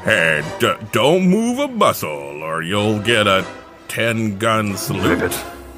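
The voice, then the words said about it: Deep character voice. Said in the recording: “you hear a deep voice coming from behind you”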